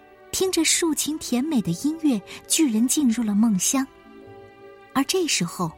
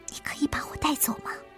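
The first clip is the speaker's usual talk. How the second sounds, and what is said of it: Whispered, quiet voice. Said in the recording (Chinese): “小声”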